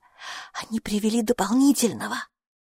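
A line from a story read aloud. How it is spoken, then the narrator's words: Whispered in ear. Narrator (Russian): она шепнула ему на ухо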